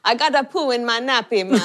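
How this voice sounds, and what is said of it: Child's voice with Jamaican accent. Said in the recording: “had like this little Jewish Canadian kid with a bit of a fro had a proper Jamaican accent.”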